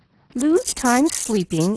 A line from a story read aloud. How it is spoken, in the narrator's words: exclaimed the sick woman